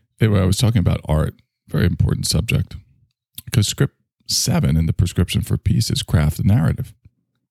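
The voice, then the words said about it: Slurred speech. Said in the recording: “Super slurry. I've been slurring a lot. ... Even though I'm slurring my words, I'm not drunk. It's just the way I speak.”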